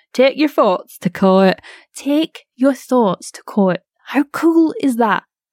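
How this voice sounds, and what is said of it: Northern English accent. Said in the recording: “the worst sentence to say in a northern accent ... She's from Burnley.”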